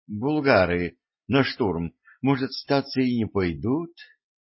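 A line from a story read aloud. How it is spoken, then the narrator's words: Uncertain young prince. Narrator (Russian): неуверенно ответил княжич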